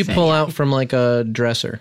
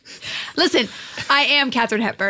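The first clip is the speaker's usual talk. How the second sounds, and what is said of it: Put-on mid-Atlantic accent. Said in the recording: “your transatlantic accent ... it's mid-Atlantic”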